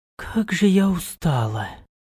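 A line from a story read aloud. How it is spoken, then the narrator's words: Tired sigh. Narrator (Russian): Вздохнула она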